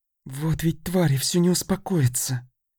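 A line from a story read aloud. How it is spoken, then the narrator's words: Hiss. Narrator (Russian): прошипела Дея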